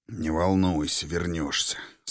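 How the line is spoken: Through gritted teeth. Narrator (Russian): сквозь зубы пообещал Никаноров

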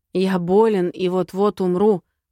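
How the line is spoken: Hoarse wheeze. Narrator (Russian): просипел Баларис

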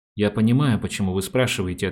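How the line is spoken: Plain. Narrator (Russian): ответил Меркальский

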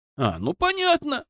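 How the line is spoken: Laughing. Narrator (Russian): рассмеялся я

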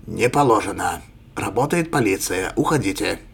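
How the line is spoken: Sharp, cutting off. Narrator (Russian): резко оборвал младший лейтенант

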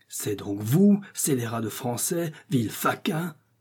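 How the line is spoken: Exclaiming. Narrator (French): s'écria-t-il

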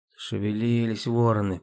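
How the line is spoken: Grumble. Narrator (Russian): проворчала

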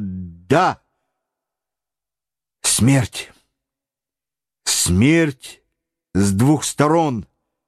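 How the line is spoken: Despairing whisper. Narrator (Russian): прошептал Гленарван, сломленный отчаянием

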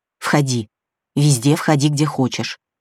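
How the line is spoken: Cautious whisper. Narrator (Russian): Славик на всякий случай шепнул

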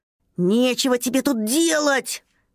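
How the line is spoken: Angry shout. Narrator (Russian): сердито закричал дракоша-садовод

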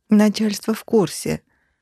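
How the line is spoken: Woman moaning. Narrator (Russian): простонала подруга

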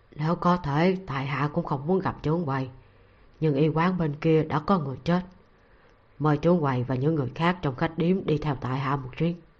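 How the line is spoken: Reluctant lowered voice. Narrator (Vietnamese): rất bất đắc dĩ mà hạ giọng

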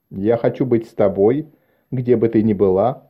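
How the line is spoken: Plain. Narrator (Russian): ответил он

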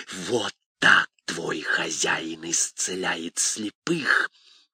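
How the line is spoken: Hissing. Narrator (Russian): Бес зашипев

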